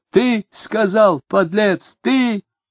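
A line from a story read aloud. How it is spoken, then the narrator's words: Loud cursing. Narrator (Russian): Он громко выругался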